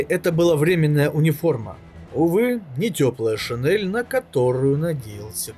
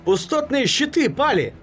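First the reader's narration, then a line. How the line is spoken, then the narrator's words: Comrade yelling. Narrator (Russian): вопил товарищ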